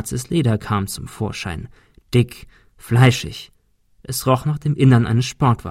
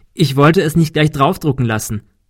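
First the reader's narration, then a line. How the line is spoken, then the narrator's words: Laughing. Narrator (German): lachte Kim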